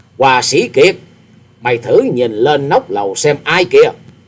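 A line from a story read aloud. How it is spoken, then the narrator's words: Laughing loud voice. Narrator (Vietnamese): ha hả cười to, to tiếng nói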